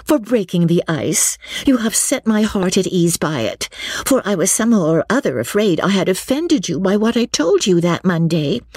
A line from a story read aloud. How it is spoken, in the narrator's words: cried Lucy, warmly